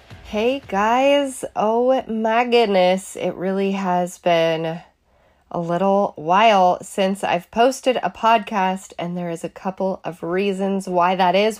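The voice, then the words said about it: Sick-sounding voice. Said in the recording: “you might be able to hear it in my voice. I am a little sick”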